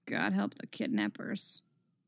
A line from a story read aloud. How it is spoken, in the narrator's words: Tim muttered